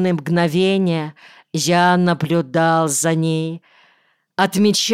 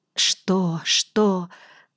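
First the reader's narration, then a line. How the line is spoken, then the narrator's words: Frightened whisper. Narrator (Russian): зашептала она испуганно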